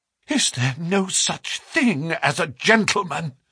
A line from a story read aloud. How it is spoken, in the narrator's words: she gasped